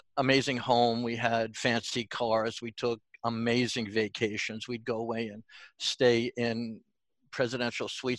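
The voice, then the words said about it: New York accent. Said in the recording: “my New York accent is coming out”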